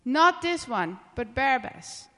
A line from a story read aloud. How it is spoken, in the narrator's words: They shouted back